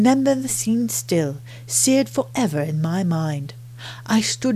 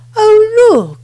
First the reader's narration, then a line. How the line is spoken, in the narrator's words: I cried with some nostalgia